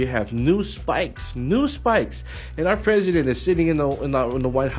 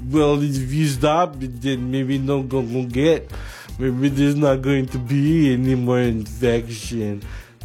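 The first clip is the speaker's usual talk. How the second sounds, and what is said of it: Imitates another person's voice. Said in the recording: “my new impression of Donald J. Trump. ... This is my new impression.”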